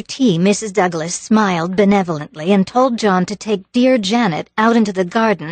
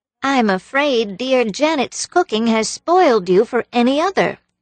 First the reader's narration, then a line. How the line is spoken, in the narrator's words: she said sweetly